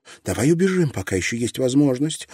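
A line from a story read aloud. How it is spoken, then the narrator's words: Pleading. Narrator (Russian): взмолилась она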